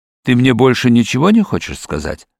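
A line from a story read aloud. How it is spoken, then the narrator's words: Plain. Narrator (Russian): спросил я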